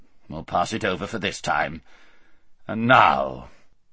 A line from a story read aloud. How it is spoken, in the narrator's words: grumbled the king